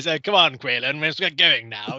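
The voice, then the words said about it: Exaggerated put-on English accent. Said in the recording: “he's doing a very English accent, which is not to say it's an accent that sounds like anyone from England, but it's a very English accent ... It's like pure English ... undistilled”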